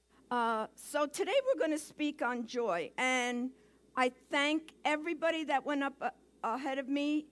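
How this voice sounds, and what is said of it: Brooklyn accent. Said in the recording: “my accent, you're going to have a little Brooklyn in the house today”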